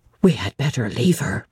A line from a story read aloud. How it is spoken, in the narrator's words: whispered Mason